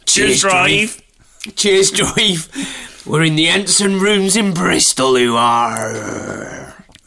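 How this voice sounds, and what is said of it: Poor attempt at Bristol accent. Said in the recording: “I can only do accents when I can say the F word in their accent ... It's just not the Bristol accent.”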